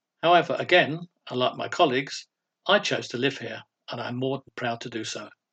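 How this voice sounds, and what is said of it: Non-local accent, not from Hull. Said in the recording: “You will probably realise from my accent that, unlike my other colleagues, I don't originate from Hull”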